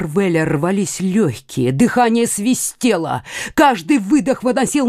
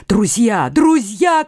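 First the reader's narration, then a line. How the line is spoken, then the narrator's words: Shouting. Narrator (Russian): кричал Марвель солдатам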